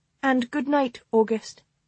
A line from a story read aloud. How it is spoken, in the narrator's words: she added in a courteous tone